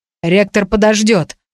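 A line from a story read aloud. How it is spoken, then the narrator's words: Puzzled grumble. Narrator (Russian): проворчал слегка озадаченный моими словами мистер Пиман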